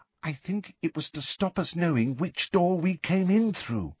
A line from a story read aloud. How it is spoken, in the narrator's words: said Ginny in a hushed voice